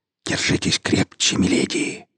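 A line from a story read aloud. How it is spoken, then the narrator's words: Whisper. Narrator (Russian): прошептал нанопанк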